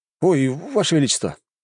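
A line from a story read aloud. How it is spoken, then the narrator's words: Exclamation. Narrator (Russian): воскликнул Лжебулатов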